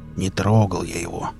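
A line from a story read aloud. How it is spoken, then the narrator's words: Uneasy grumble. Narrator (Russian): буркнул Велес, почему-то вдруг ощутив себя крайне неуютно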